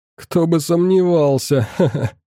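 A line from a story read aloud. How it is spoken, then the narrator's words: Laughing. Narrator (Russian): продолжал смеяться Иван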